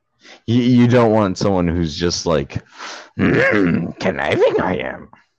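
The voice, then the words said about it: Poor Yoda character voice. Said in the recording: “sorry about the Yoda voice ... It was a terrible Yoda impression”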